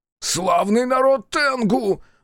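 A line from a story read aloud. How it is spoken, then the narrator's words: Desperate shout. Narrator (Russian): закричал Аяшики в отчаянии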